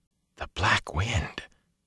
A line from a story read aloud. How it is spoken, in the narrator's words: Matt breathed, frozen halfway into a chair